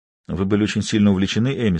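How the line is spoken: Plain. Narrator (Russian): спросил я

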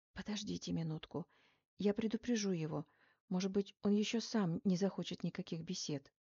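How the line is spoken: Whisper. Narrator (Russian): врач шепотом сказала мне

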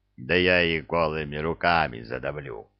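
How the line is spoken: Contemptuous troll growl. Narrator (Russian): презрительно рыкнул тролль

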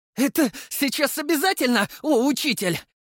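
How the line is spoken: Strained sarcasm. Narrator (Russian): Сарказмом успел выдавить Максим, уворачиваясь от новой парочки летающих камней

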